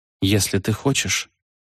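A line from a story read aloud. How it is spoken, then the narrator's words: Quiet. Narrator (Russian): тихо проговорила она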